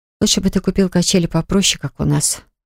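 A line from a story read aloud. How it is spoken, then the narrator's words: Sighing. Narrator (Russian): вздохнула она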